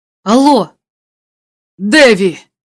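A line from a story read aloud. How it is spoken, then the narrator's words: Shouted reply. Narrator (Russian): закричал в ответ голос Шустера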